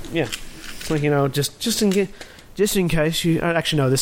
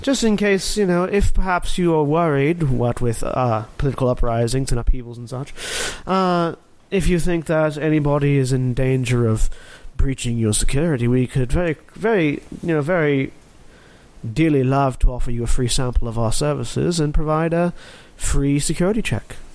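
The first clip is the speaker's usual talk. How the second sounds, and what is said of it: Put-on proper English accent. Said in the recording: “this accent is different ... talks with a proper English accent”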